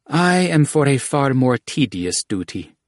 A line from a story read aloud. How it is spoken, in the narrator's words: Alamra said, sighing